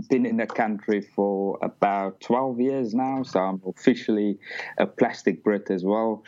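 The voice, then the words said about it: South African accent. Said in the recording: “Originally from South Africa, as you can probably tell from the accent.”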